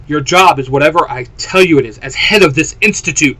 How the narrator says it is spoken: Clary shouted, a tear running down her left eye

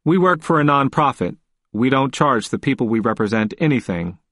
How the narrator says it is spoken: said as blandly and politely as I could

